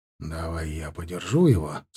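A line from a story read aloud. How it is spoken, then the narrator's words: Quiet. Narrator (Russian): сказал я тихо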